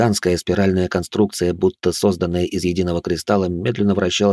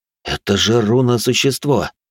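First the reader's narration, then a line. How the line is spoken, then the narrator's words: Breathed in astonishment. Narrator (Russian): пораженно выдохнул я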